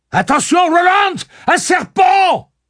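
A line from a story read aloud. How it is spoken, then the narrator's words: Screamed. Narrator (French): hurla Cuthbert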